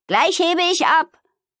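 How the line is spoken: Calling. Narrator (German): rief Amalie

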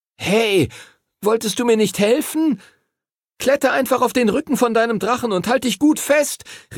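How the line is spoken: Calling out. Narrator (German): rief Henry ihm zu

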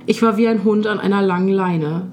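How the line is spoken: Plain. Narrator (German): sagt er

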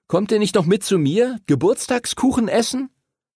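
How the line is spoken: Calling after. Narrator (German): rief Henry hinter ihnen her

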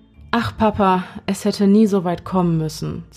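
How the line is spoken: Sighing woman. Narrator (German): seufzte sie

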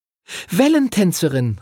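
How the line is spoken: Calling out. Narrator (German): rief Lucy

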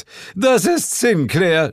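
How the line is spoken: Devil shouting. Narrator (German): schrie der Teufel

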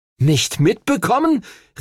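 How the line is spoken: Indignant exclamation. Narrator (German): rief empört

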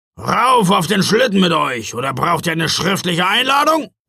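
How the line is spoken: Growling. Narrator (German): knurrte Knecht Ruprecht

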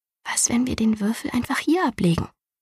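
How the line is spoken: Quiet question. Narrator (German): fragte leise

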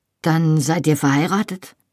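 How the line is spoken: Weak voice. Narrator (German): sagte er schwach

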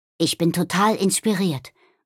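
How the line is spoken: Murmured. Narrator (German): murmelte Nobby

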